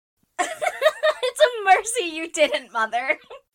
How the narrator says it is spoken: laughed Joe

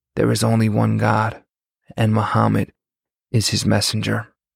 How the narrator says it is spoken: he got up and whispered

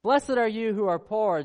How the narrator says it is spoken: Jesus says

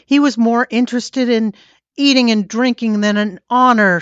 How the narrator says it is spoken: screamed

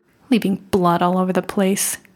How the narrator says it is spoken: muttered

